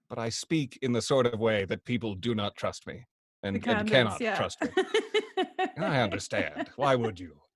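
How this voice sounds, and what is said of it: Baritone voice, slightly posh British accent. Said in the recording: “your baritone voice and slightly posh accent”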